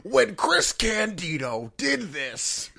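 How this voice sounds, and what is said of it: Imitates another person's voice. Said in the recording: “Is that your Paul Heyman impression? ... It's my ECW Paul Heyman feud package impression, yes. ... I think it could be better.”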